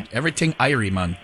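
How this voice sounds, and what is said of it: Weak put-on Jamaican accent. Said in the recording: “ridiculous accent ... Jamaican. ... I'm still going back to some Canadian there, but Jamaican accent. ... I'm not good at the Jamaican.”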